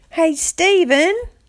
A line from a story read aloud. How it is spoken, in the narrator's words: shouted